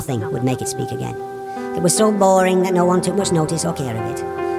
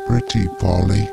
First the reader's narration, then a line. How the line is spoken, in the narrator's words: mumbled the creature, almost inaudibly